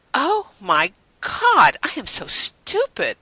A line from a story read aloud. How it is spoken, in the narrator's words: Rodney exclaimed